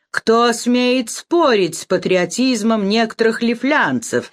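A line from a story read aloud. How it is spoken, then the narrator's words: Mocking. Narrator (Russian): сказал насмешливо Шлиппенбах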